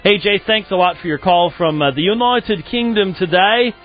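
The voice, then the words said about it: Attempted British accent. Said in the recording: “I had people in the channel asking me to do a British accent, and so I'm doing my best.”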